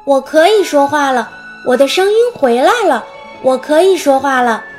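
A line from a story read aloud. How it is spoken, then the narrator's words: Exclaiming. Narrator (Chinese): 他叫了出来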